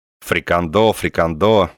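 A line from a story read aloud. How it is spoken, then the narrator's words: Angry, spiteful. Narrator (Russian): сказал Корейка злобно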